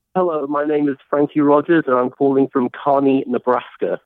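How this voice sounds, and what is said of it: British accent. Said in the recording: “You sound British”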